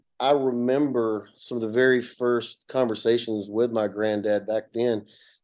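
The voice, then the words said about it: North Georgia Appalachian accent. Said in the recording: “i come from a little small town in, in north georgia you can hear my accent ... an appalachian mountain area the foothills”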